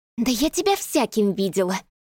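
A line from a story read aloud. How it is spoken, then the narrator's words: Hissed. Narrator (Russian): прошипела Марина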